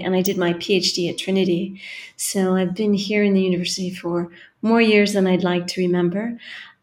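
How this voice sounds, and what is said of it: Californian American accent. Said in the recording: “I come from California, which you can probably hear from the accent.”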